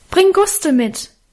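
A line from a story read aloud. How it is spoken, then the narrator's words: Calling into darkness. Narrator (German): rief ich ihm in die Dunkelheit nach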